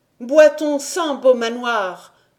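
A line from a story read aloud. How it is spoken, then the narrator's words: Exclaimed. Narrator (French): s'écria Emmanuel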